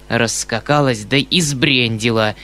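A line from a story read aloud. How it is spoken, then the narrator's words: Hissing. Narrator (Russian): прошипел Бахчеев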